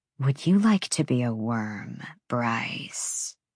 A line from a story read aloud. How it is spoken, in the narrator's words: Jessica purred, voice sliding into something eerily close to a reaper's rasp